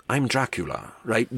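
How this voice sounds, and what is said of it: Very proper British accent. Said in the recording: “This very, very proper British accent.”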